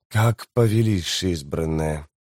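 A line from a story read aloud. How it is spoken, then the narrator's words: Through gritted teeth. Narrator (Russian): процедил Леоман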